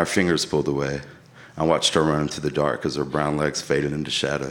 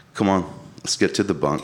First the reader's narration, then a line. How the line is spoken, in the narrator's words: Brad said